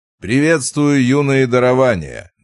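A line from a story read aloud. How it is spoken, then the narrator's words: Loud. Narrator (Russian): громко произнес Вовка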